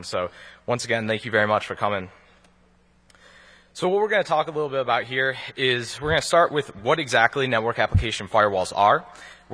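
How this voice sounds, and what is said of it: Worn, tired voice. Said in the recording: “a little bit of a Vegas accent, because it's been a long con”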